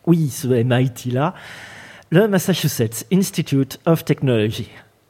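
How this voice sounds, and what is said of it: French-accented English pronunciation. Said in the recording (French): “Arrête de marrer de mon accent”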